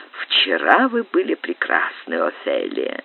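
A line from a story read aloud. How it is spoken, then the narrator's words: Loving whisper. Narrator (Russian): прошептал с любовью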